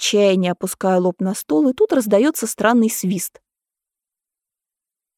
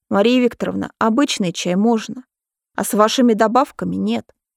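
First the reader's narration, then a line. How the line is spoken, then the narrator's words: Calm. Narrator (Russian): спокойно отвечает еще один охранник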